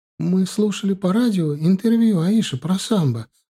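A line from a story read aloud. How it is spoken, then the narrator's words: Sobbing. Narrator (Russian): начала всхлипывая рассказывать она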